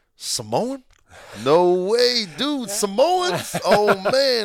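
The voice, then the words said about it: Put-on accent imitating football players. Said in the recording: “I probably do a crappy accent”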